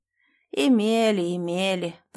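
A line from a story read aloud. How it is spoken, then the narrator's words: Grumbling stranger. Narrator (Russian): проворчал незнакомец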